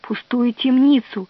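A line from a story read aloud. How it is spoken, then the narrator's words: Servant whispering. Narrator (Russian): прошептал слуга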